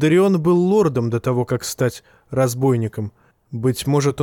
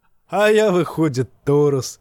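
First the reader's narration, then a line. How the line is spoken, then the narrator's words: Laughing. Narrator (Russian): засмеялся певец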